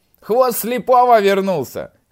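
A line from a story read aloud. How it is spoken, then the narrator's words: Shout. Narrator (Russian): крикнул Пышка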